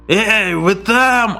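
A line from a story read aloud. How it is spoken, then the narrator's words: Drunk person yelling. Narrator (Russian): орал кто-то пьяный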